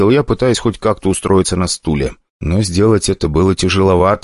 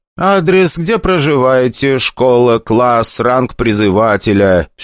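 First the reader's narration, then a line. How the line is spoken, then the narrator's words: Dry, official tone. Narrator (Russian): Все тем же сухим протокольным голосом продолжал худой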